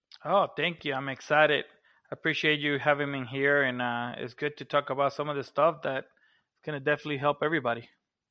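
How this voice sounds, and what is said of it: Puerto Rican accent. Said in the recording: “he has a fun Puerto Rican accent ... And kind of sexy”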